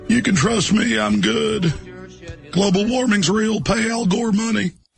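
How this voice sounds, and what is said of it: Imitates another person's voice. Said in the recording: “That's not bad. In terms of his impressions ... It's an easy impression, but that's not bad. ... That was easily his best impression that we've ever seen. ... That's a good impression of the standard Bill Clinton impression.”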